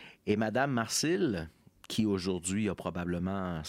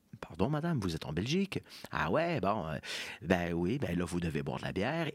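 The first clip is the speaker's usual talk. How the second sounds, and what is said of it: Bad put-on accent. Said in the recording (French): “je vais prendre un mauvais accent”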